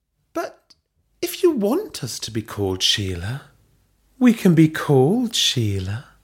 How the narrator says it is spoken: Belinda purred

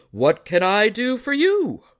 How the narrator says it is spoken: he hailed in a mighty voice that made Joe's ears ring

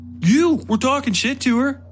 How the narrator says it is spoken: Coakley almost shouted back

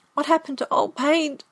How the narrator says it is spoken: I cried

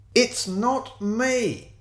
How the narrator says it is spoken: he shouted back

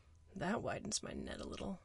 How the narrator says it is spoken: I murmured, knuckles on my lips

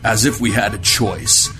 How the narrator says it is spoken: Wu grumbled

